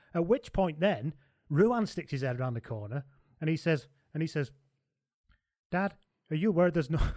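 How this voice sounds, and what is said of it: Put-on Irish accent. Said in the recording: “I'm still doing the Irish accent. ... I'm, I'm, locked in the Irish one now.”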